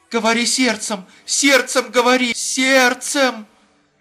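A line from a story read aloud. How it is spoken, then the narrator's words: Joyful whisper. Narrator (Russian): Радостно прошептала Рутман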